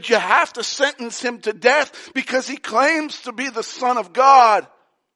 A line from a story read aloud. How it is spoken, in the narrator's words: The chief priests and the Jewish leaders of the law came and pleaded with Pilate and said